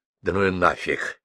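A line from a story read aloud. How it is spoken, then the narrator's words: Whisper. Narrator (Russian): шепнул он бабству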